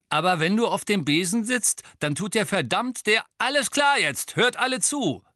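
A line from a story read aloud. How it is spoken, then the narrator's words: Loud speech. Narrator (German): sagte Angelina laut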